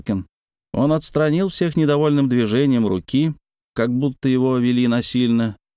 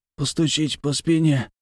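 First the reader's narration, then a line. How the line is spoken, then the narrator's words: Wheezed. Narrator (Russian): прохрипел он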